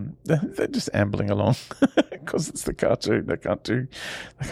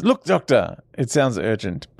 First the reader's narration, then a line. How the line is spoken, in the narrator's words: Jamie yells